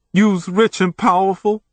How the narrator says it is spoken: sobbed

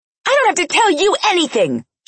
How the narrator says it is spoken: she shouted

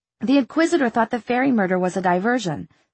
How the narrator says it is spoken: she said quickly

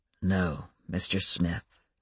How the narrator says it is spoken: said Adam softly

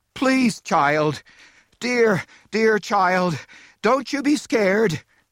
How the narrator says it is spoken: were pleading

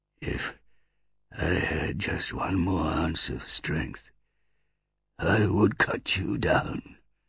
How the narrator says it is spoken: muttered Druss, struggling with his axe

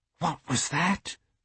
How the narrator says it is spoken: Emma whispered

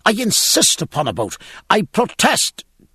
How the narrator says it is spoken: And in the din, Stephen cried

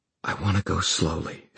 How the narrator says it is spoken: she whispered

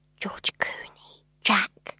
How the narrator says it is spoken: she whispered

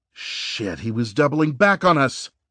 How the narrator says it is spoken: Reese exclaimed

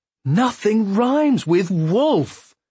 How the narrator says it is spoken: exclaim in annoyance

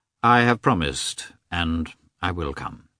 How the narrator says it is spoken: he answered in a dejected tone

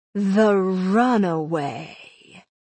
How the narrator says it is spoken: said, in a tone that was velvety and smooth, almost a purr

